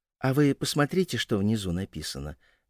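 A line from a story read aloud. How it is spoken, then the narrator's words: Soft prompting. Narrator (Russian): мягко подсказала Стася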